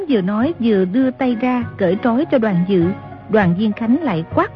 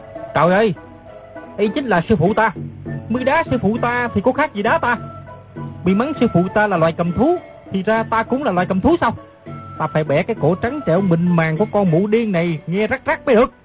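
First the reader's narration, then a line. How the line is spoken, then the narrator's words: Loud angry shout. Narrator (Vietnamese): Nam Hải Ngạc Thần thấy người nằm dưới đất chính là sư phụ, quát lớn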